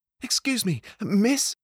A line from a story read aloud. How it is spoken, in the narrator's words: he said, panting